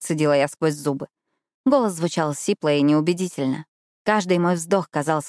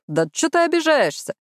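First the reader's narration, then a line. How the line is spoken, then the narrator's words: Nasty snort with laughter. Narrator (Russian): Уилл противно фыркнул, засмеявшись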